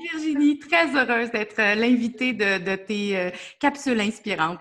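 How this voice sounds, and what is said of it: Québécois French accent. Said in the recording (French): “ton accent, mais on part au Québec”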